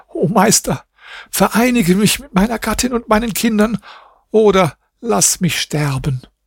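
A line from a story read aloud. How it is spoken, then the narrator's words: Sobbing cry. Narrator (German): rief schluchzend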